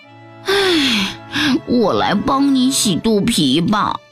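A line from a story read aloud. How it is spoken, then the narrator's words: Sighing. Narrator (Chinese): 他叹口气说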